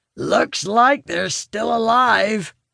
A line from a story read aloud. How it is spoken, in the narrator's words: he calls gruffly to his fellows